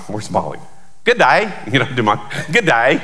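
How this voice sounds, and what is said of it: Weak imitation of English accent. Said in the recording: “Well, I can't do a real good English accent, but I do my”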